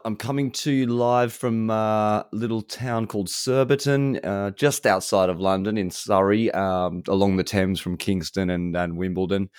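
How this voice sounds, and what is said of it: Distinctive Australian accent. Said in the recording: “your accent ... a distinctive Australian twang”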